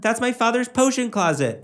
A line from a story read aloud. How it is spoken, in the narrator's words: Draco shouted